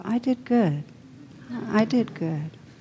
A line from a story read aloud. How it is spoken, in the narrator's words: saying softly to himself